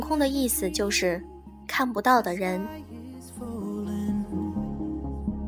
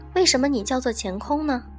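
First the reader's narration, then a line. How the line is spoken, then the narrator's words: Plain. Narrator (Chinese): 乾空回答道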